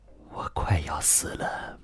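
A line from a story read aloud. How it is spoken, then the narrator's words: Hushed reply. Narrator (Chinese): 他压低了声音回答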